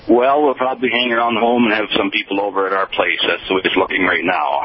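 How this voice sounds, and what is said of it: Minnesota accent. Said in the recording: “He does sound like he's from Minnesota ... Those native Minnesotans ... We have an accent up here.”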